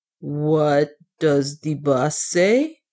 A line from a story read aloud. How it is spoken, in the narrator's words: asked Otter slowly